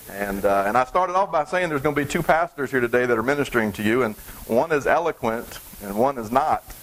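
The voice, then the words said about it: Southern US drawl. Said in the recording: “me with my southern drawl”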